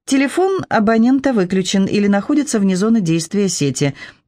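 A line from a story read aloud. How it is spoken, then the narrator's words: Pleasant female phone voice. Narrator (Russian): приятным голосом сообщила девушка в телефоне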